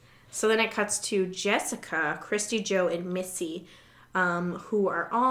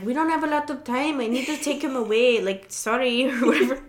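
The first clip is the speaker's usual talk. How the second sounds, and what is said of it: Imitates another person's accent. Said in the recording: “I'm still trying to perfect my Frenchie accent. ... I like what you're doing.”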